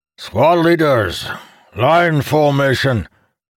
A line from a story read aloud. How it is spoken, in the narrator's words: Kalamir shouted